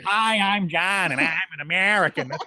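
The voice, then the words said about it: Exaggerated nasal American accent. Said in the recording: “she doesn't emphasize the hard R's when she does when she imitates me. It's like she emphasizes the nasally A.”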